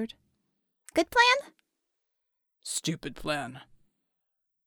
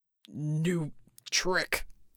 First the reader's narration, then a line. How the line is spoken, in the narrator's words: he gasped, his usual rumble now a bit forced and stuttering